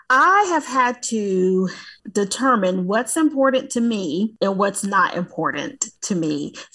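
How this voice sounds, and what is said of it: American Southern accent. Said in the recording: “I'm from the South, for the listeners, if they aren't able to hear the accent, but I'm from the South, y'all”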